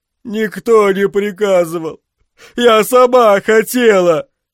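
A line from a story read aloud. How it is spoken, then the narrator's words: Sobbing. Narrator (Russian): Рыдала Йоэлона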